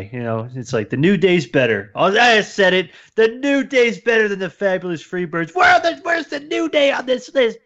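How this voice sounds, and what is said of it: Mock internet commenter voice. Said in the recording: “That was my impression of the internet.”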